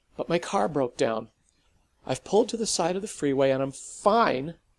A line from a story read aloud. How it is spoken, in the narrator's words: said it too harshly